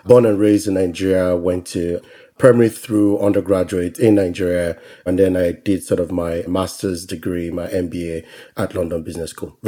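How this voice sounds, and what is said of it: Nigerian English accent. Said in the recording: “I am from Nigeria. If you couldn't already tell by my accent”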